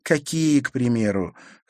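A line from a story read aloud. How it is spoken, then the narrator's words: Heavy sigh. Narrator (Russian): Харри тяжело вздохнул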